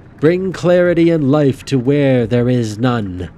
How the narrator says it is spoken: Rowan boomed

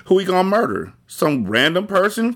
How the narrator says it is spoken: Crazy K asked

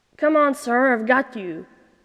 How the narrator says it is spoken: Nuriel growled

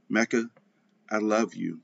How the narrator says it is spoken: Bree whispered

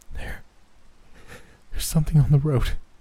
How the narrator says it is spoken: Janelle said shakily

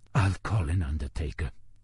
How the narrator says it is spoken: whispered the man in the wheelchair, almost as if until that very moment he hadn't quite believed that Johann Bernbach was actually dead

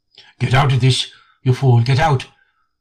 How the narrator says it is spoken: heard him mutter

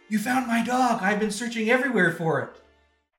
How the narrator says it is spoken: I yell, I'm like

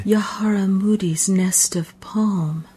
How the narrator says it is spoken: she whispered

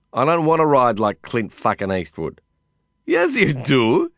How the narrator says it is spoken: he laughed

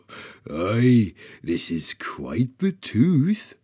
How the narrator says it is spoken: Bromir chuckled

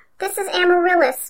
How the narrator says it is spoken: sobbed a small female elf

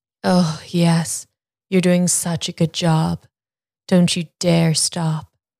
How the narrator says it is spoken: Julia moaned

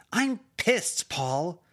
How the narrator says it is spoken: she raised her voice

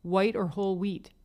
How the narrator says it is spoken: he asked

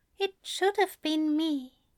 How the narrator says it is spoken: Alistair said so quietly Crowley nearly missed it

